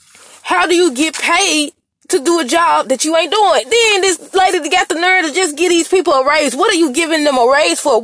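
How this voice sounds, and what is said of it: Yelling. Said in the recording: “I'm yelling in y'all ear”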